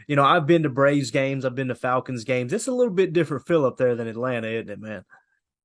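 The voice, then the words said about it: Southern US Tennessee accent. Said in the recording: “I'm located in Tennessee. You probably hear the accent, right?”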